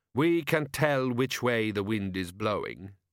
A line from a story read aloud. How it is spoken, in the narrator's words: said Gorriff calmly